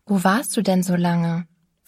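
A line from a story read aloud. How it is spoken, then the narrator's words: Plain question. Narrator (German): fragte ich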